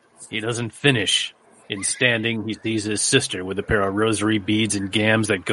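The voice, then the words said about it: Film noir detective narration voice. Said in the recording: “read this as though you were a film noir detective”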